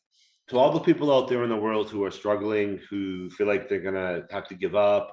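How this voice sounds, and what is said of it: Boston accent. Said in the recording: “I have a Boston accent according to some people”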